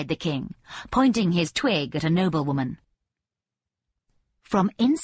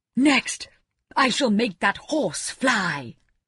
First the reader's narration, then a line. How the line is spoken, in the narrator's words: cried the king